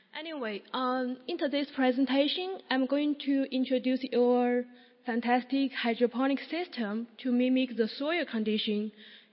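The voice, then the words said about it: Voice sounds sick with a cold. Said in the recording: “sorry about my voice because I just have a cold”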